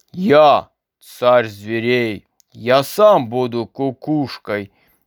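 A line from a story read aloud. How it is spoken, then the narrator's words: Menacing roar, lion. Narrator (Russian): грозно зарычал лев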